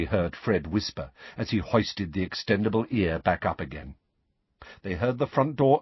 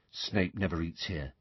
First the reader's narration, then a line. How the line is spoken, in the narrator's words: Ron told Harry quietly